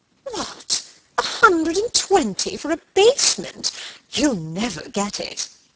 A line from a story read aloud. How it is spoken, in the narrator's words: exclaiming